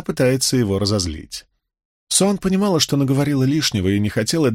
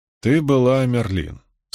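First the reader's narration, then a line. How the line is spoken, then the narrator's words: Calm. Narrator (Russian): спокойно сказал Брин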